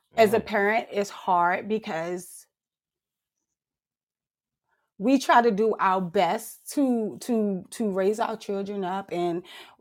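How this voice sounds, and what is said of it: Choked up, emotional voice. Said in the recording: “I'm trying not to get choked up. I'm sorry.”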